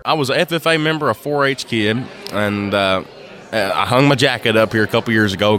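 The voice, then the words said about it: Kentucky accent. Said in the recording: “Kentucky ... everybody asks the accent right off the bat”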